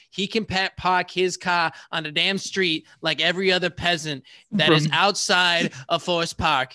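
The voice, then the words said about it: Put-on Boston accent. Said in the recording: “everybody in the Chicago suburbs has a Boston accent, according to ... here.”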